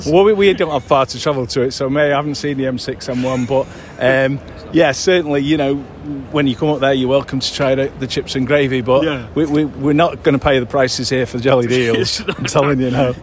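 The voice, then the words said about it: Manchester accent. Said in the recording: “you've actually got a Manchester accent”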